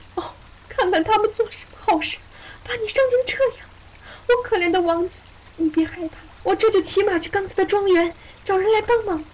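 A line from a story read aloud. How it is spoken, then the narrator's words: Sobbing. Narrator (Chinese): 他抽泣道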